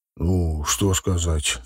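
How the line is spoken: Deep bass voice. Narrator (Russian): пробасил

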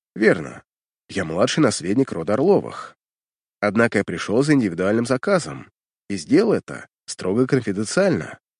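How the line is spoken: Calm direct statement. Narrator (Russian): спокойно и прямо заявляю

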